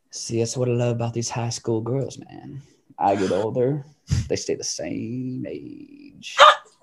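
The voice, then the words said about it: Matthew McConaughey impression. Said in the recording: “McConaughey impression ... Should I do the Dazed and Confused?”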